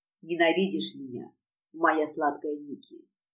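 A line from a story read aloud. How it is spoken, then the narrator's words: Growled. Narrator (Russian): зарычал мне в лицо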